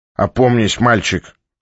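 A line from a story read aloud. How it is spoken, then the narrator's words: Irritated old man. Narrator (Russian): раздраженно сказал старик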